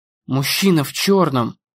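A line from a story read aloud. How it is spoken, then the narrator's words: Muttered. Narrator (Russian): пробормотала Эмми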